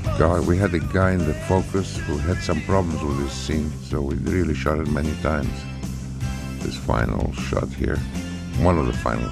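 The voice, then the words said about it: Italian Greek accent. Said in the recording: “my voice with this Italian Greek accent”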